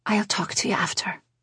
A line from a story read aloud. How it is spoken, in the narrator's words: Rosie said to Angela quietly